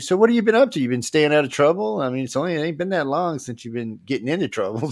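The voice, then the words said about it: Cajun Louisiana accent. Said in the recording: “my accents ... it's a coon ass accent”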